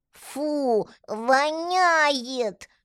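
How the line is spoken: Squeaky pinched-nose child voice. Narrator (Russian): пропищал Митя, зажимая ручонкой нос

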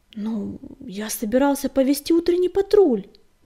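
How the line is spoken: Uncertain reminder. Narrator (Russian): неуверенно напомнил он предводительнице

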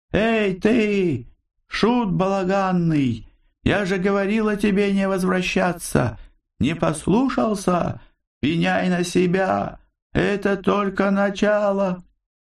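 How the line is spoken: Insolent mocking shout from darkness. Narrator (Russian): Из тьмы хорошо знакомый, дерзкий и насмешливый голос прокричал

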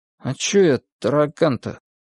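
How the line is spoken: Dejected question. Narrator (Russian): совсем уже упавшим голосом осведомился знаток

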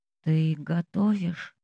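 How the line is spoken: Sleepy, low, hoarse voice. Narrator (Russian): Его голос еще сонный, низкий и хриплый

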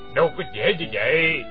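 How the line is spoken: Old man, dry laugh. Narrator (Vietnamese): Lão Trùm lái cá cười nhạt nói

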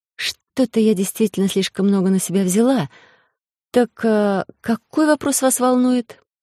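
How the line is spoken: Long, slightly upset sigh. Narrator (Russian): шеф вздохнул, почти так же протяжно и даже немного расстроенно

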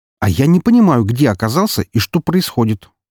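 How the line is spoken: Indignant squawk. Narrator (Russian): возмущенно кликотнул Фридрих

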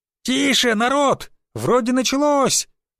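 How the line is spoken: Woman shouting from crowd. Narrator (Russian): крикнул женский голос из толпы

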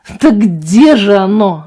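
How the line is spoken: Yell. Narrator (Russian): завопил Вальтер

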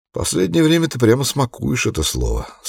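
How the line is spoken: Plain. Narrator (Russian): сказал он

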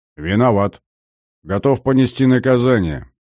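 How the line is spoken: Calm, confident. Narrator (Russian): спокойным, уверенным тоном произнес Максим

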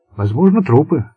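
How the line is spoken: Calm reply. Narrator (Russian): спокойно ответил Болон

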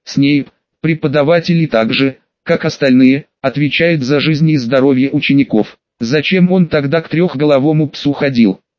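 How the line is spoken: Plain. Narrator (Russian): спросила Гермиона

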